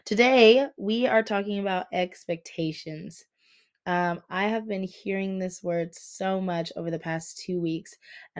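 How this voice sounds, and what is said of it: Voice sounds off, still recovering. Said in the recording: “If my voice sounds off to you, I lost my voice about 2 weeks ago, and she is still having a hard time finding her way back. It's not as bad as it was... It's getting better, but I hear it... I'm just lost my voice. She's coming back, just taking her time.”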